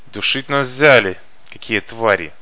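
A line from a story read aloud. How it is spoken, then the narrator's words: Through gritted teeth. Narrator (Russian): процедил кто-то сквозь зубы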